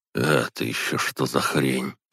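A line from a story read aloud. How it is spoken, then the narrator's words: Mutter. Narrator (Russian): пробормотал я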